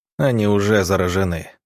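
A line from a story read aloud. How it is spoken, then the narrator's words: Grim statement. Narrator (Russian): мрачно констатировал Иван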